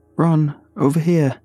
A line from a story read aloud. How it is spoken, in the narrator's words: I called out